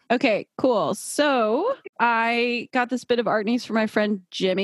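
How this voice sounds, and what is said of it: Usual voice. Nothing is said of it.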